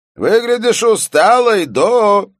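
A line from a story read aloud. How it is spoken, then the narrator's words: Shouting boss. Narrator (Russian): прокричал начальник редакции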